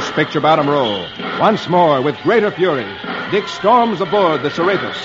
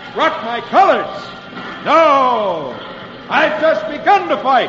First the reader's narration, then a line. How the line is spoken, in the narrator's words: with flashing eyes, John Paul Jones shouts back